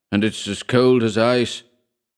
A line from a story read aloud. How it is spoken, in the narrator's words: he bellowed